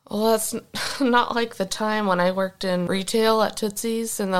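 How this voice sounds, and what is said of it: Usual voice. Nothing is said of it.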